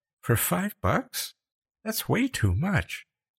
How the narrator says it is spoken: Becca stammered something, then said in a faint voice

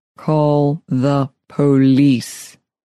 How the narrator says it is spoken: Speaking slowly into her ear, Neil commanded

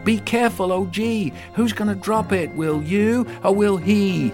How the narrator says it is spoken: shouted

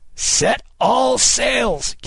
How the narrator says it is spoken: Kidd cried

